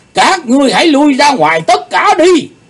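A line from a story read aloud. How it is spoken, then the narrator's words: Roaring. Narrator (Vietnamese): tiếng gầm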